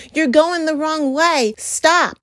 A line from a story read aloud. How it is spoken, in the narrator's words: those on the sideline yelling